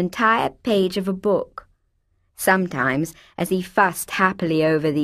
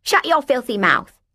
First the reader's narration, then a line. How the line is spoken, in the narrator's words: she'd snapped